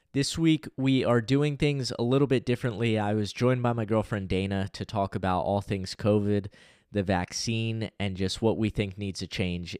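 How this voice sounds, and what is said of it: Slightly raspy voice. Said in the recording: “my voice sounds a little bit raspy. I'm coming down with a cold.”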